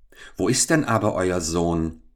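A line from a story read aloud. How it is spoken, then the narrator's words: Trembling voice. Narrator (German): fragte Jakob mit zitternder Stimme seinen Vater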